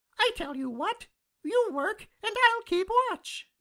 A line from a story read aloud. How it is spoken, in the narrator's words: he cried